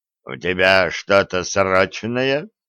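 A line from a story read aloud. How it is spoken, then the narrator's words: Grumble. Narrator (Russian): проворчал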